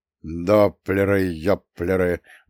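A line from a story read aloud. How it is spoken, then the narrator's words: Grumbling mutter. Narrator (Russian): буркнул Судоплатов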